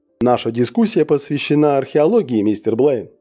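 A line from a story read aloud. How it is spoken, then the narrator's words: Plain. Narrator (Russian): сказал он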